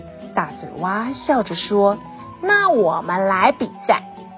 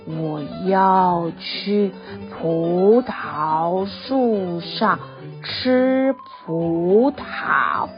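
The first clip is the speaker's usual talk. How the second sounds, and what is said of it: Very slow drawn-out speech. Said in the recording (Chinese): “蜗牛用很慢很慢的声音说”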